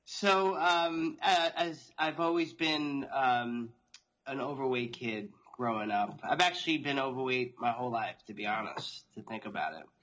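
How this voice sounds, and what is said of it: Long Island New York accent. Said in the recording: “I'm born and raised in New York, outside New York City on Long Island, as you could probably tell from my accent now.”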